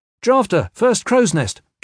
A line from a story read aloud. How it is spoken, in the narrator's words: Kip called out